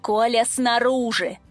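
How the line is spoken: Growled in face. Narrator (Russian): рыкнула я ему в лицо

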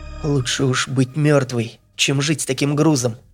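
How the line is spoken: Quiet answer. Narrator (Russian): тихо ответила Танька

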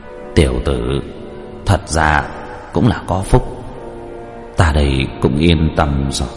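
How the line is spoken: Soft smiling murmur. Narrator (Vietnamese): nhẹ nhàng cười, trong miệng thì thào nói

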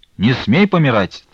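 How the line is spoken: Cheerful shout. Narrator (Russian): весело крикнул Чепурин

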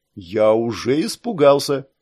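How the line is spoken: Snide grumble. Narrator (Russian): с ехидной усмешкой проворчал Саш

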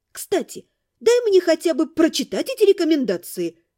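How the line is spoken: Exclaimed. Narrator (Russian): воскликнула я

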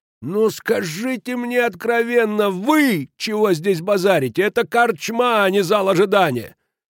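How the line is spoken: Roar. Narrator (Russian): Кирикеш так и взревел

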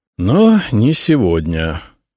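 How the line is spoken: Sighing emperor. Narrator (Russian): вздохнул император

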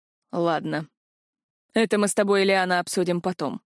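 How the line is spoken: Gloomy promise. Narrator (Russian): мрачно пообещал Тарграш

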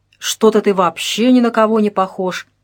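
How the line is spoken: Displeased male grumble. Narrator (Russian): недовольно пробурчал мужчина

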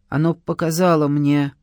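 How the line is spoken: Muffled reply. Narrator (Russian): глухо ответил

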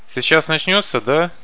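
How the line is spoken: Asked cheerfully. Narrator (Russian): бодро спросил Каша

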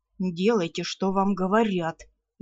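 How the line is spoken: Vampire's snarl. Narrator (Russian): рыкнул вампир

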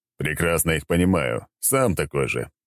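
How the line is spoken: Chuckling reply. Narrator (Russian): хохотнул в ответ

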